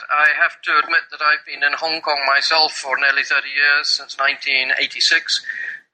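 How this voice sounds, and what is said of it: English accent from England. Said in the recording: “you're listening to my accent and you're listening to the pure English accent from England”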